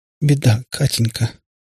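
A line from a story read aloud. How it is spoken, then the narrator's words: Muffled trembling voice. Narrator (Russian): глухим, дрожащим голосом сказала она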